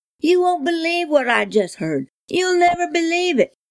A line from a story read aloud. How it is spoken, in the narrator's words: cried